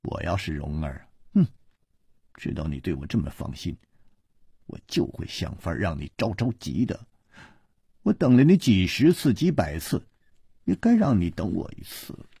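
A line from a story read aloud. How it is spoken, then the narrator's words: Sneering cold laugh. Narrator (Chinese): 他撇了撇嘴冷笑着说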